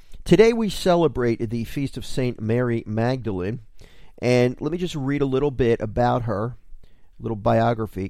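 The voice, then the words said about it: Slightly scratchy, hoarse voice. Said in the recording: “I don't know if you can hear it in my voice, but all of a sudden my allergies are really getting bad ... So I apologize if my throat sounds a little scratchy.”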